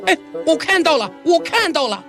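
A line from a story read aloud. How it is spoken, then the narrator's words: Shouting. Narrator (Chinese): 我向我女朋友喊道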